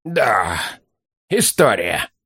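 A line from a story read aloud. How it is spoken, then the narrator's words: Sighing. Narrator (Russian): вздохнул ловчий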